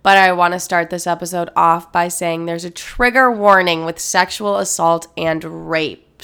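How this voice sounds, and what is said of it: Sick-sounding voice. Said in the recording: “clearly I'm very sick, and you're gonna hear that in my voice in this entire episode”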